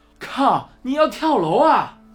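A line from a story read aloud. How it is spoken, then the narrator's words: Shouting. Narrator (Chinese): 老费喊道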